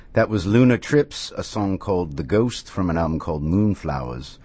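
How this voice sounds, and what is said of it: Affected British accent. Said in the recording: “I am using an affected British accent”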